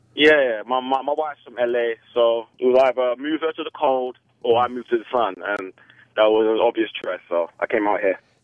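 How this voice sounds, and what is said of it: Casual English accent, not posh. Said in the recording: “that good English accent... ska band English accent... Not the hoity-toity shit.”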